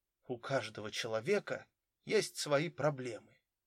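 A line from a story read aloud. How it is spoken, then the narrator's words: Quiet. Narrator (Russian): тихо сказал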